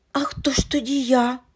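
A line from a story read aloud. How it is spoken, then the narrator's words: Curious exclamation. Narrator (Ukrainian): вигукнув сповнений цікавості Андрійчик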